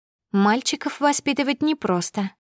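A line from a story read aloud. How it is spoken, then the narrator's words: Thoughtful. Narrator (Russian): задумчиво сказала я Синеглазке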